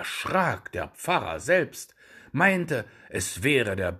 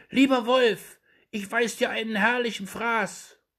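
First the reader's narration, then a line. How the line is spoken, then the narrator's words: Muffled call from inside belly. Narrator (German): rief ihm aus dem Wanste zu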